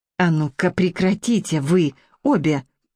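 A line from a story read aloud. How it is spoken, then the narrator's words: Hiss. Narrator (Russian): прошипела кухарка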